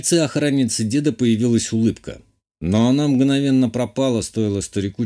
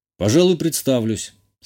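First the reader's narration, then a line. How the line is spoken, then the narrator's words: Calm, composed. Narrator (Russian): спокойно сказал я, догадавшись, что мой собеседник пытается вывести меня из себя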